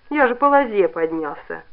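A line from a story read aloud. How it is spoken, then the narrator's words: Resigned sigh. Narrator (Russian): покорно вздохнув, ответил Кунта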